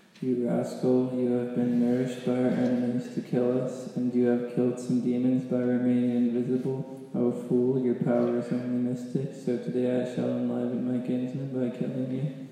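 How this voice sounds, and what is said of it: Demon character voice. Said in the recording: “the best demon voice”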